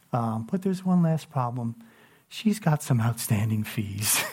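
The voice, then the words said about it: Imitated librarian voice. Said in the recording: “I'm doing my best librarian voice I can do.”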